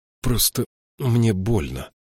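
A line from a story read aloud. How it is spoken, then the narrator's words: Hoarse. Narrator (Russian): хрипло ответила она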